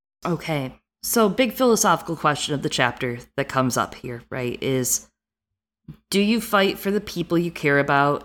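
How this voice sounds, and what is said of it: Midwestern American accent. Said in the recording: “my accent, which is like Midwest that has lived on the East Coast, but also reads a lot”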